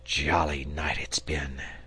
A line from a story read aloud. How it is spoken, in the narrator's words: he murmured